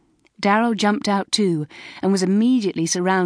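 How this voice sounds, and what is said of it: Usual voice. Nothing is said of it.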